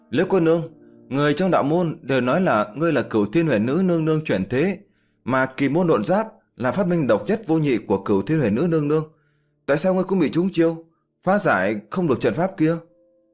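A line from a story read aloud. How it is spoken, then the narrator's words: Sighing question. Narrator (Vietnamese): Trương Đạo Tiên thở dài một hơi hỏi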